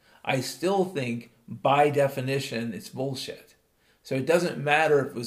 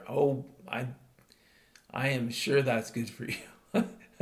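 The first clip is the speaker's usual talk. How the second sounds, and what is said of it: Sarcastic tone. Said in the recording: “in the way of being sarcastic”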